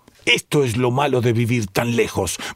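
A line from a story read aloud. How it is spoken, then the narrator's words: Sudden violent shout. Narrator (Spanish): vociferó el señor White con imprevista y repentina violencia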